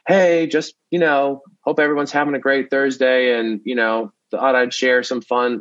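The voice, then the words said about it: Generic upbeat social media voice. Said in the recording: “social media voice, where it's just this generic kind of voice that we've adopted from everyone”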